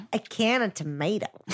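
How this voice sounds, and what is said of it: Awful put-on American accent. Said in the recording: “That was awful. I've never done a worse accent in my life. ... Apologies to the American community.”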